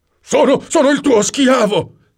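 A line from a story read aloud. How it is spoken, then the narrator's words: Shrieked. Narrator (Italian): strillò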